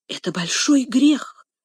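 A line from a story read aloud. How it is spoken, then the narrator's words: Whisper. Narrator (Russian): прошептала Эмилина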